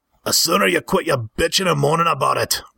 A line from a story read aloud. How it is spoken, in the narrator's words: growled Altrus